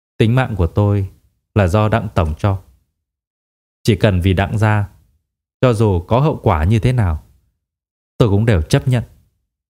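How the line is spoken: Cold, after deep breath. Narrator (Vietnamese): A Hoa hít thở một hơi thật sâu, lạnh lùng nói

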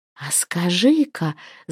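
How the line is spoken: Breathless, secretive whisper. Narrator (Russian): с замирающим сердцем шепнула она, точно выдавая свой тайный замысел

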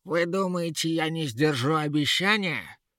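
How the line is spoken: Righteous angry shout. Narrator (Russian): В праведном гневе закричала Ера

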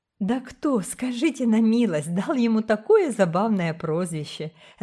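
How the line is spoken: Laughing. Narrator (Russian): засмеялась миссис Блайт

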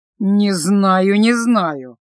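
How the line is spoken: Displeased drawl. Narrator (Russian): недовольно протянул он

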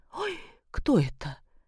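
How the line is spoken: Frightened question. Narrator (Russian): испуганно спросила Любовь Сергеевна

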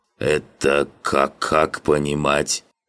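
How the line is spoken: Slight stammer. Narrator (Russian): Чуть заикаясь, уточнил координатор

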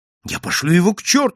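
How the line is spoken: Exclaimed. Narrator (Russian): воскликнул я

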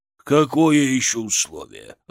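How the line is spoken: Growl. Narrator (Russian): рыкнул Шаповалов

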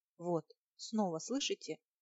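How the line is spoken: Frightened girl. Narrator (Russian): повторила девушка, испуганно

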